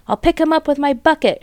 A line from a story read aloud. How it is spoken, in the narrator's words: shouted Bunce